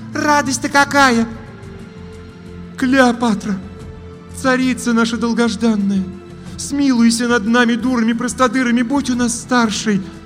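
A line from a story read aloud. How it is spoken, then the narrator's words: Pleading witch. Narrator (Russian): Взмолилась третья ведьма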